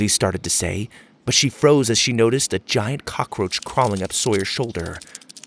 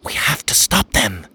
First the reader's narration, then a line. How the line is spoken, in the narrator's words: Achara whispered